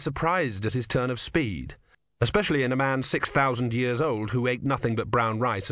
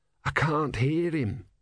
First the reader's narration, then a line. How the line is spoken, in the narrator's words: said Brother hoarsely